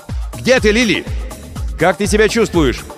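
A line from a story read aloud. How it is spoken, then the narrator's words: Shout. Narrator (Russian): закричал в направлении корабля Крисмас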